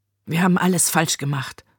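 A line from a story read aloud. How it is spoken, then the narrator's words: Murmured. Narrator (German): murmelte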